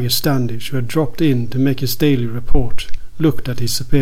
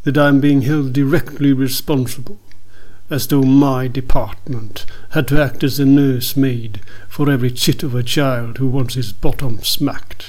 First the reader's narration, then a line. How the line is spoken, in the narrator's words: complained Sir Harker Bellamy bitterly